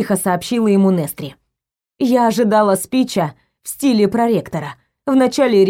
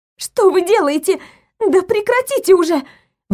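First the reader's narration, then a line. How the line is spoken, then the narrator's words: Shrill squeal. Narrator (Russian): Взвизгнула я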